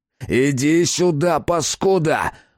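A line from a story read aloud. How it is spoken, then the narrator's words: Growling killer. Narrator (Russian): зарычал убийца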